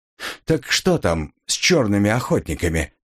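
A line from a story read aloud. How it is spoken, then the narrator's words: Neutral tone. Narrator (Russian): повторил он нейтральным тоном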